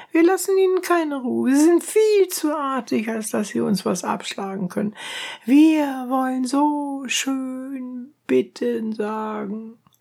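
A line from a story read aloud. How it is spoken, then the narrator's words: Women shouting. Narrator (German): schrien die Abderitinnen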